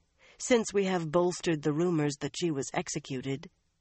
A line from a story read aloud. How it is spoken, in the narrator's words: Alviarin said evenly